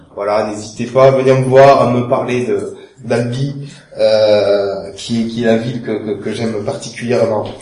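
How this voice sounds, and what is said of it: Sing-song Toulouse French accent. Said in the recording (French): “mon accent soit chantant, ce n'est pas l'accent marseillais, c'est l'accent toulousain, albigeois plus précisément”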